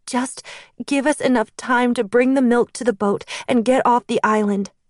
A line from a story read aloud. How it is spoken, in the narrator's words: I pleaded